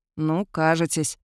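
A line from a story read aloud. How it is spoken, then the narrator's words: Sullen mutter. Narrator (Russian): хмуро буркнул Теодор, потому что Кайлен, разумеется, попал в точку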